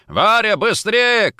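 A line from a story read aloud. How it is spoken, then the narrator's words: Shout. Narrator (Russian): крикнул он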